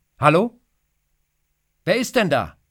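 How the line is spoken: Man calling upward. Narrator (German): ruft er hinauf

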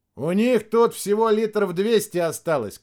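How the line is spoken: Shouting. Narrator (Russian): крикнул пилот

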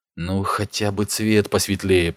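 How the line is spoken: Muttered. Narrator (Russian): пробормотал Ник

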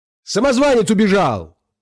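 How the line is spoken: Shout. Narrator (Russian): закричал он

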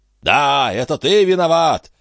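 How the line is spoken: Shouting. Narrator (Russian): кричал Саук, опрокидывая стулья

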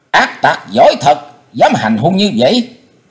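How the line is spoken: Angry scolding shout. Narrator (Vietnamese): tiếng giận dữ quát mắng

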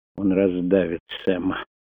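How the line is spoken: Quiet. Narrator (Russian): тихо произнес Крейг

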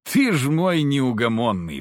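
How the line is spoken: Sighing. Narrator (Russian): вздохнул

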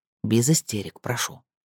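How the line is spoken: Dry remark. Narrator (Russian): сухо заметил Госс

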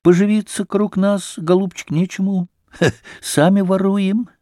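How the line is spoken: Gentle speech. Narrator (Russian): Овдоким сказал ласково

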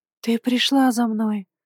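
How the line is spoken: Soft nearby whisper. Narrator (Russian): раздался рядом тихий шепот

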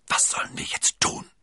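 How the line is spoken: Whispered. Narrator (German): flüsterte D'Artagnan

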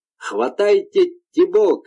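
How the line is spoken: Shouting in astonishment. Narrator (Russian): кричала она, потому что слышала обращенные к свинье проклятия и была поражена скоростью, с которой исполнилось пожелание башмачника

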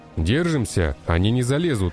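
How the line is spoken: Loud. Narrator (Russian): громко говорил я

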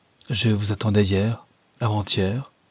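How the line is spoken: Plain. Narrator (French): dit-elle

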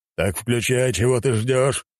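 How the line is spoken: Old man's gruff growl. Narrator (Russian): рыкнул старик

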